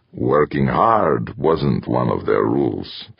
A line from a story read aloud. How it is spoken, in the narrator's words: Timoshenko growled to himself